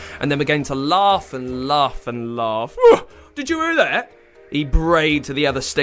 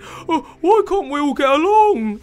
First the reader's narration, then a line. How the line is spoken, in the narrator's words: He squeaked